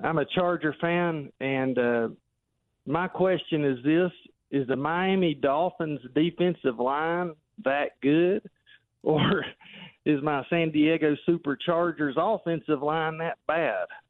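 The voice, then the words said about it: Southern country accent. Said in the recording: “this big country accent from the Smoky Mountains here in Tennessee”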